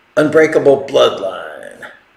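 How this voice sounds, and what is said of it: Big announcer voice. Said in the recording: “There's my big announcer voice for you.”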